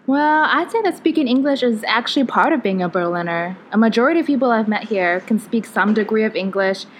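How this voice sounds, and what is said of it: American accent. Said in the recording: “you speak English with an American accent”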